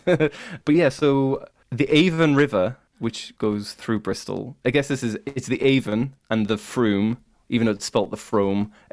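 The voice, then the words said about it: Northern English accent. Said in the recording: “I have a very northern accent. My accent is like the Starks from uh, Game of Thrones”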